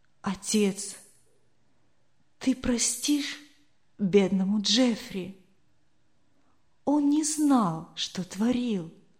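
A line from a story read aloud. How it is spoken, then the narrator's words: Whisper. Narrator (Russian): услышал, как он шептал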